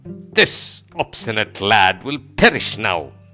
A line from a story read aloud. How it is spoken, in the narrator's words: Dushasana roared in anger and exclaiming